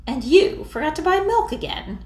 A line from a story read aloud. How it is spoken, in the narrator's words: Annie said haughtily